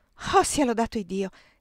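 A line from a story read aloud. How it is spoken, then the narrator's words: Exclaiming. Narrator (Italian): esclamò la signora Shelby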